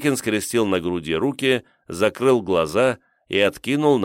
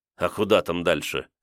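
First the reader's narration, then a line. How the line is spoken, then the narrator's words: Skeptical grunt. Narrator (Russian): хмыкнул Миккоев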